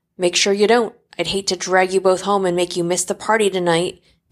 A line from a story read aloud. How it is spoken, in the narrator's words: the commander adds with a snarl